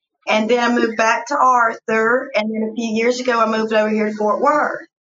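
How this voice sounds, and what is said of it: Southern American accent. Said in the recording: “That's where I got my Southern accent from.”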